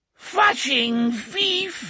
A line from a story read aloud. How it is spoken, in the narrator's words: gibbered in its whining, droning insect's voice